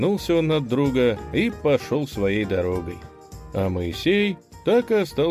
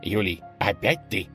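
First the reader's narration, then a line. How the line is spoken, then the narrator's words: Hissed. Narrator (Russian): прошипел он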